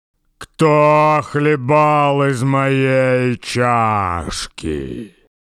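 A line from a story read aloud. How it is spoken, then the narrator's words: Quiet growl. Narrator (Russian): Настасья Петровна зарычала не так громко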